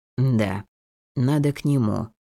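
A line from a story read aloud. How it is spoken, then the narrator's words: Slow answer. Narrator (Russian): медленно ответил он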